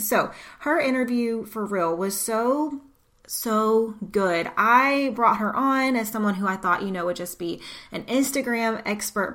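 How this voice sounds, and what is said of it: American southern twang. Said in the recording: “my southern twang”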